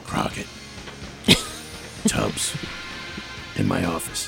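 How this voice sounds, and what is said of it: Impression of Edward James Olmos. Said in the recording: “I'm going to do an impersonation of Edward James Olmos. This is what he did in every episode.”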